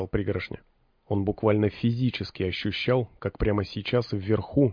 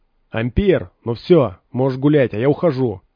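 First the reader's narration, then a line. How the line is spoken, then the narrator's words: Shouted into the darkness. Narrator (Russian): выкрикнул он в огромный сумрак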